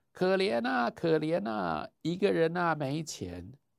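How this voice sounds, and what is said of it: Put-on Shandong accent, round ringing voice. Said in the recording (Chinese): “有一个比较勇敢的山东乞丐，刚刚呢那个显然是江南的乞丐，这个时候换一个口音。...他的嗓子浑圆嘹亮”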